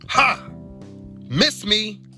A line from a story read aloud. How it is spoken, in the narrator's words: shouted the clipboard man